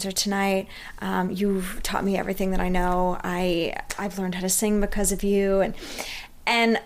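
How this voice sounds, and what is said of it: Usual voice. Nothing is said of it.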